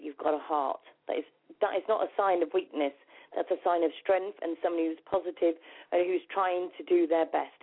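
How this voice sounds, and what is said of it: English accent. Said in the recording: “I love your English accent.”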